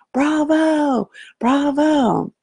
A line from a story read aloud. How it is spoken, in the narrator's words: still screaming